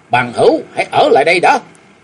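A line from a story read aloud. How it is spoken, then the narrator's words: Two voices shouting together. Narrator (Vietnamese): hai bóng người đồng thời quát lớn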